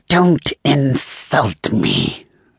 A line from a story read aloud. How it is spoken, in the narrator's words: Saywolf growled